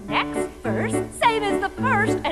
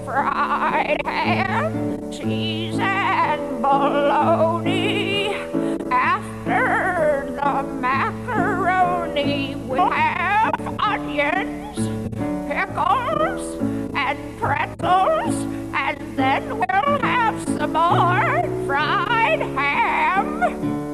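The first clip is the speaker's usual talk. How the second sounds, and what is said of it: Sings in an old-person voice. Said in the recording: “an old accent”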